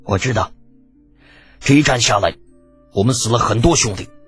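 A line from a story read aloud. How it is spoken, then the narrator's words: Cold voice. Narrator (Chinese): 苏烈开口，声音依旧冰冷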